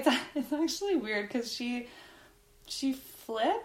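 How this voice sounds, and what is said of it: Usual voice. Nothing is said of it.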